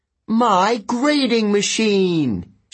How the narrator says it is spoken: she cried

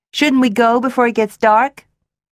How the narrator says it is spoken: Daphne called out

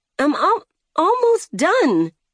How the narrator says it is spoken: she stammered

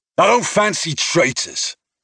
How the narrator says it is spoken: he snapped

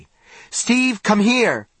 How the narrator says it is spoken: Johnny shouted

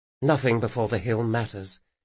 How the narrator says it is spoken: she said quietly

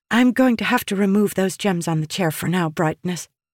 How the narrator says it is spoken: Rushu said

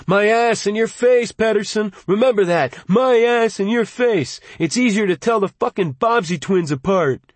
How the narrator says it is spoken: Marty Bellerman yelling exuberantly

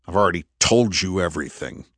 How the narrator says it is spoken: Andrew snapped

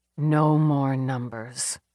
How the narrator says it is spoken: she muttered

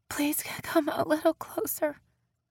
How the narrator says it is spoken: she panted out

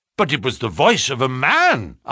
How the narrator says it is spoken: I cried

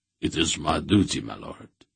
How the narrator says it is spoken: Mandoralan replied in a subdued voice

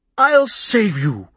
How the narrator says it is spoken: I barked

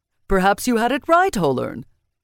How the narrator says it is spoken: he said cheerfully

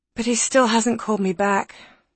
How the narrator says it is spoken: sighed Alice

